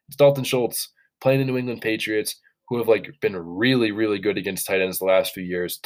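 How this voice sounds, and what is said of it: Congested, slightly off-sounding voice. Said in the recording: “Sorry for my voice. Sorry if I sound a little bit off. Definitely came down with a really rough head cold”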